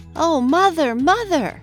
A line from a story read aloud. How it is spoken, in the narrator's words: exclaimed Lucy Welford